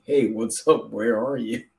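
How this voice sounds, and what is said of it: Canadian accent impression. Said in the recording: “It's the Canadian accent, too. It's perfect.”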